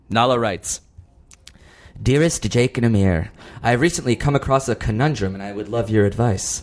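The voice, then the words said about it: Seductive put-on reading voice. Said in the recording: “What's the accent? ... she's like sort of like a seductive”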